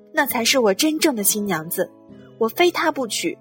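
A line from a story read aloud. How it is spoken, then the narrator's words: Loud excited shout. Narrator (Chinese): 罗兰一跃而起，大声喊叫道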